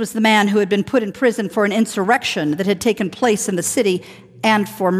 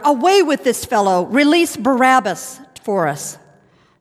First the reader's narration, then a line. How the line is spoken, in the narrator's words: they all shouted out together